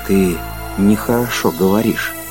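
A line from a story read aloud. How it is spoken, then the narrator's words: Quiet. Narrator (Russian): сказал Кондратьев тихо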